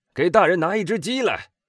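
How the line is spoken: Shouting. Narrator (Chinese): 比皮诺转过身去喊道

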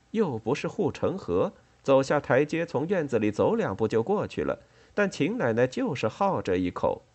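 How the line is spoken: Smiling explanation. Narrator (Chinese): 李子笑着向美代子解释

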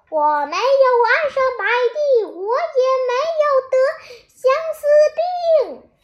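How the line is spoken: Shouting. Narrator (Chinese): 我大喊道

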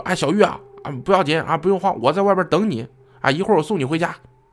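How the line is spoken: Calling out. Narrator (Chinese): 喊了句说

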